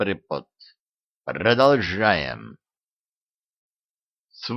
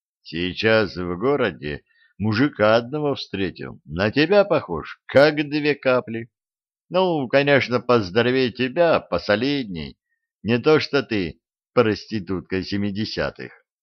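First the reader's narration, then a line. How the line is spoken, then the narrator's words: Sighing. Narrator (Russian): Наш капитан вздохнул и сказал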